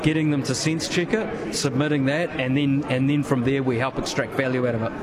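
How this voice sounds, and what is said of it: New Zealand accent. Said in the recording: “Pardon the accent, I'm assuming you're New Zealand based.”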